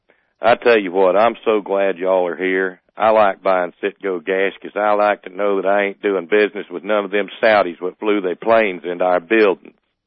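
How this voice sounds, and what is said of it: Put-on Southern US accent. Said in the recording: “back in the heart of Dixie ... hauled out my best accent”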